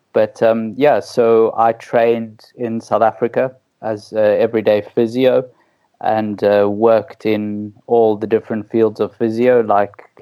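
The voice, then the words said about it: South African accent. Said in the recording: “your listeners can tell by my wonderful accent that I'm South African”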